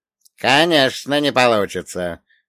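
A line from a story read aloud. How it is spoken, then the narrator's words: Old man's scornful snort. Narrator (Russian): фыркнул старик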